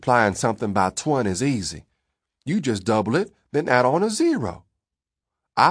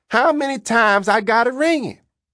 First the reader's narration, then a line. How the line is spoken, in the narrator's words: Cuda yelled